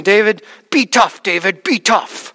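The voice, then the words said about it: Imitated thick Russian accent. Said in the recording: “with that thick Russian accent”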